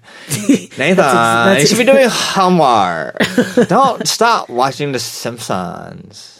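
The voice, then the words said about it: Impression of speaker's parents. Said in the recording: “That's how my parents talk, by the way... That's exactly how they sound... able to do a great impression of my parents”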